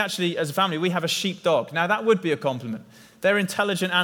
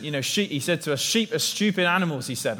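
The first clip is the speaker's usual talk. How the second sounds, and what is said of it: Gruff northern English accent. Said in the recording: “in a gruff northern accent”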